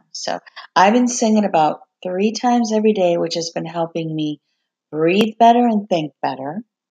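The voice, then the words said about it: Hoarse, strained, fading voice. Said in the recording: “I'm losing my voice right now.”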